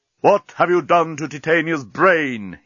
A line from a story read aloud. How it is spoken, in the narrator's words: he roared